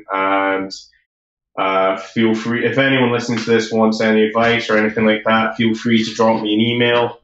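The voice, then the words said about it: Fast speech with Scottish accent. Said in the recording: “I talk very fast and I've got a Scottish accent, so it might not be so easy to understand.”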